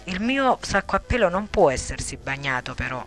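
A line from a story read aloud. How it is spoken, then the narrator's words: Exclaimed. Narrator (Italian): esclamò Lia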